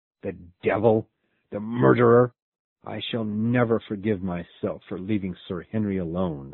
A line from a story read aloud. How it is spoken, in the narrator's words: I cried angrily